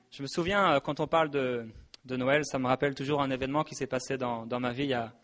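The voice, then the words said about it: French accent from France. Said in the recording (French): “je suis français, alors il faudra m'excuser, mon accent français”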